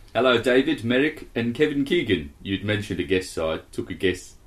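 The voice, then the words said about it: Put-on South African accent. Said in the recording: “I'm just going to do South African ... South Africa.”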